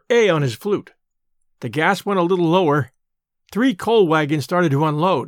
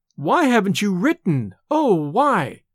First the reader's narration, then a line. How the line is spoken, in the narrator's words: cried Sarah